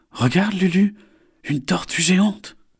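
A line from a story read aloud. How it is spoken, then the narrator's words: Exclaimed. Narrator (French): s'exclame Isor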